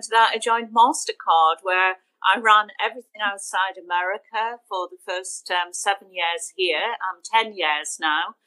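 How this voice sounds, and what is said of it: Northeast accent. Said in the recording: “you still have your Northeast accent”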